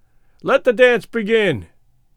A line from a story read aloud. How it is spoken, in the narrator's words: he cried